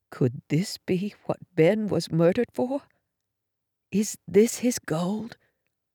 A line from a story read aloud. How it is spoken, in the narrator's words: Mom whispered